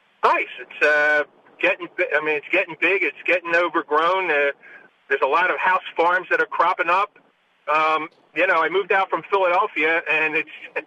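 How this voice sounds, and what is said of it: Philadelphia accent. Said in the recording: “I could tell you have a Philly accent.”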